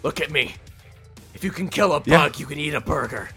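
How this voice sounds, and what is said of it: Deep dramatic character voice. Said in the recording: “that deep dramatic voice”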